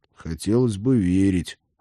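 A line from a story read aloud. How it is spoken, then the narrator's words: Sighing young man. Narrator (Russian): вздохнул парень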